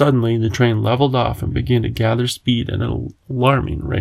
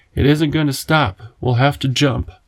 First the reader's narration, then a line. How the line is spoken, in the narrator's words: Over the noise of the engine, the professor shouted